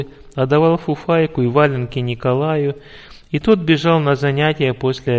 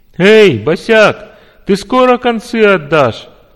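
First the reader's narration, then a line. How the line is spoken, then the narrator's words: Guffawing. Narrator (Russian): захохотал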